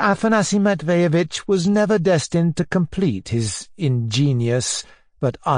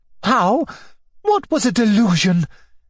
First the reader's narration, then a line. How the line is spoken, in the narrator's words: cried Maria Alexandrovna, not quite catching the remark